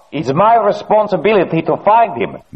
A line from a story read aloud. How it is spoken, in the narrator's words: Mironov shouted